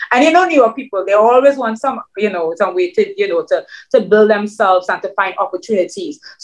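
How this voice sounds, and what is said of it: Foreign accent in English. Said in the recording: “with my accent, I was really intimidated ... a foreigner come to another country”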